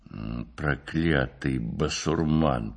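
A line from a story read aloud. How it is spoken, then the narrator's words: Grumbling. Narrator (Russian): проворчал Спицын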